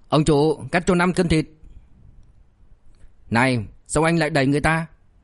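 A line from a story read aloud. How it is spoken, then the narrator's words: Irritated but restrained. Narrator (Vietnamese): tức giận không muốn gây chuyện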